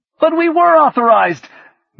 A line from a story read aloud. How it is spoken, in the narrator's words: Miller shouted